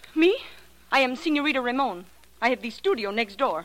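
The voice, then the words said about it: Slightly fake-sounding accent. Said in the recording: “That accent of yours is slightly spurious, too”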